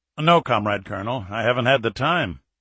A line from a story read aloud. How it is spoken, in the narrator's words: Alexeyev chuckled